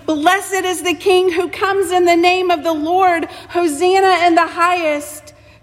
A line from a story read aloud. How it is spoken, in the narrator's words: yelling, maybe in just your hearts, but yelling